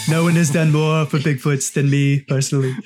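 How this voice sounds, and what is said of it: Donald Trump impression. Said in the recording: “his Donald Trump impression”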